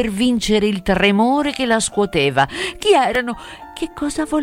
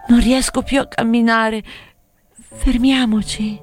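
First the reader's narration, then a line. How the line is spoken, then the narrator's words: Weak surrendering moan. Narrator (Italian): come arrendendosi, la fanciulla gemette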